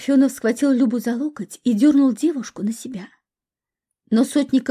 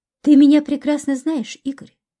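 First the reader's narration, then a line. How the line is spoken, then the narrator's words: Calm. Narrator (Russian): спокойно ответил ему Сотников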